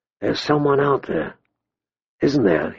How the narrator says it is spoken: he whispered

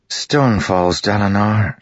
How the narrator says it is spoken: she said, sighing

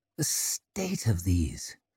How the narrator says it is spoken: murmured Orso

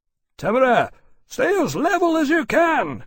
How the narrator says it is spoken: he shouted

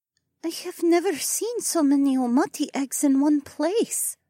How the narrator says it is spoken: Adhara muttered

